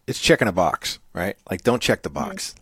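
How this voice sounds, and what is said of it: New England accent. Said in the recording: “Said chicken a box. ... It's my New England accent.”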